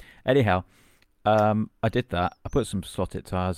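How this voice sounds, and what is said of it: Usual voice. Nothing is said of it.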